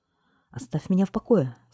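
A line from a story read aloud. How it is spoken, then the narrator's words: Angry squeak. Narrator (Russian): сердито пропищал бургомистр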